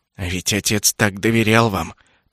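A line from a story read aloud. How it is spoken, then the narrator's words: Through gritted teeth. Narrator (Russian): процедил Джастин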